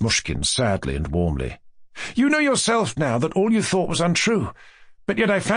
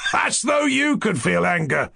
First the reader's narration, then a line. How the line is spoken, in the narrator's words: Rogojin laughed again